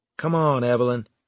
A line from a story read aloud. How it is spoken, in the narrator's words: I said